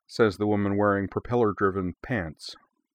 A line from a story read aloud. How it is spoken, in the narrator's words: replied dryly